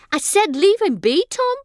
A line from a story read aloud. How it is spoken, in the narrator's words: snapped